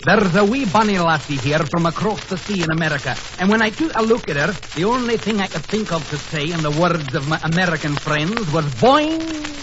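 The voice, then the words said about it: Put-on Scottish accent. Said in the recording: “what accent? ... He's a Scotsman.”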